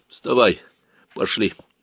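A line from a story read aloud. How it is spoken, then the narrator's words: Tired voice. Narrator (Russian): Он сказал усталым голосом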